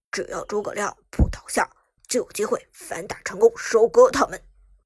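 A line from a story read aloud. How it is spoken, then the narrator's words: Deep, steady voice. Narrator (Chinese): 阿宁沉声说道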